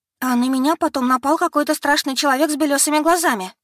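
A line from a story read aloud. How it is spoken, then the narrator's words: Frightened woman. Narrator (Russian): испуганно добавила дама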